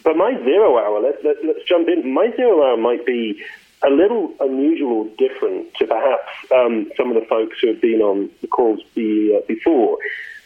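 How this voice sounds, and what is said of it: Northern English accent with Australian tinge. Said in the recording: “born and raised in the north of England. And my accent's a little screwy because after I graduated university, I went to live in Australia ... I thought you were Australian ... I had to posh my accent up a little bit”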